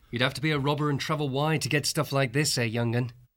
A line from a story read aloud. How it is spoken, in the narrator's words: Dandin said cheerfully to Bowley